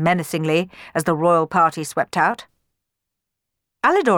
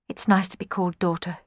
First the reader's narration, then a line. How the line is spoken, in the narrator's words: she murmured